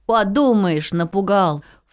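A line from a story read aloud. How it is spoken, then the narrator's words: Dismissive snort. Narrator (Russian): фыркнул Дрыбы-дыр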